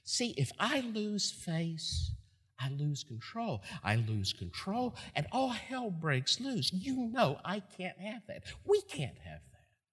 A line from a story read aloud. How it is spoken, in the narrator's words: Herod's voice keeps whispering in his ear